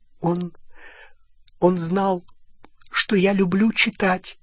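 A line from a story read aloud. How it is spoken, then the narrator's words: Choked voice. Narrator (Russian): сдавленным голосом ответила Гермиона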